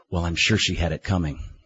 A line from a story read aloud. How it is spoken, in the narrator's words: Unaffected, whispered